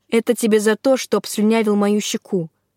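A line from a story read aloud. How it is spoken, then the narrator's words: Calm. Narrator (Russian): сообщила спокойно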